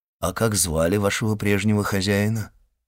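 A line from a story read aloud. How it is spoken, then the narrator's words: Plain. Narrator (Russian): спросил Монте-Кристо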